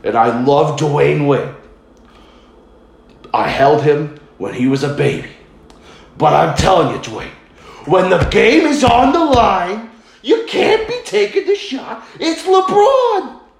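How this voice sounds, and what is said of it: Imitates another person's voice. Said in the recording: “that's my Stephen A. Smith. Actually, it's technically my Jay ... my Jay Farrow ... impression.”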